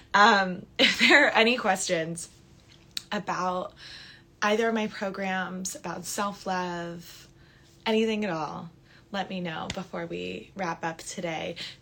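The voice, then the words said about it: Slightly raspy voice. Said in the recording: “my voice is like gotten a little raspy. It's probably from all the smoke cleansing I've done in here.”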